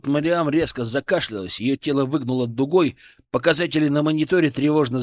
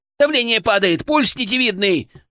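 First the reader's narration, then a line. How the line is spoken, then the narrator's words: Frantic shout. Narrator (Russian): крикнул Прилипало, лихорадочно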